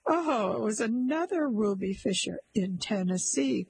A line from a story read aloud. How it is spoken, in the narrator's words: cried her husband